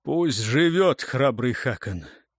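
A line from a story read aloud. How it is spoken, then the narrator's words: Hoarse, foreign language. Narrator (Russian): сипло выговорил на северном языке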